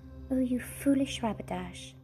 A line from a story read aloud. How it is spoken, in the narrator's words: sighed Lucy